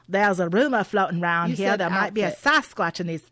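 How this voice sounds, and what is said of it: Crocodile Dundee-style Australian accent. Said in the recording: “in his best Crocodile Dundee accent”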